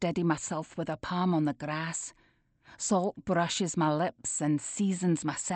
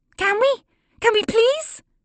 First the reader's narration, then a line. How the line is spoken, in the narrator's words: My niece squeals